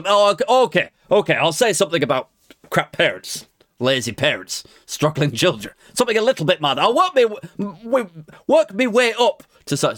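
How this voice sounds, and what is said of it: Imitates another person's accent. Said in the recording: “I'm struggling with the accent now.”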